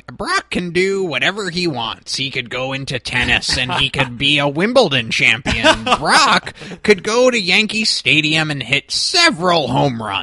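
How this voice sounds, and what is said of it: Good Paul Heyman impression. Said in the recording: “It's a pretty damn good Heyman impression.”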